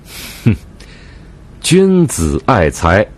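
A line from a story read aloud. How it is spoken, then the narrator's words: Sly smiling. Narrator (Chinese): 抿嘴一笑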